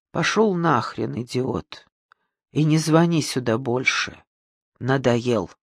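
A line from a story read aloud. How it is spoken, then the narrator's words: Tired. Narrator (Russian): Галина Петровна устало сказала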